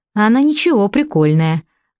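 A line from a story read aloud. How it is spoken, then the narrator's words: Cheerful sales pitch. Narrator (Russian): радостно рассказывал дядька, заманивая покупателей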